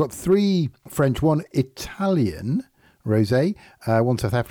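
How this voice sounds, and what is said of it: Usual voice. Nothing is said of it.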